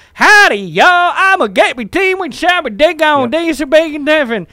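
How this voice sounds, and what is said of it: Exaggerated over-the-top Southern accent. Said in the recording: “it has to be a terrible over-the-top accent ... if you're in the South”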